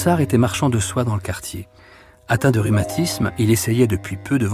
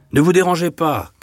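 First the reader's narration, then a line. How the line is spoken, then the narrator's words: Shouted. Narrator (French): cria le drapier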